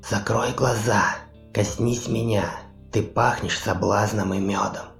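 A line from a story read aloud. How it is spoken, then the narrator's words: Seductive whisper. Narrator (Russian): зашептала байкерша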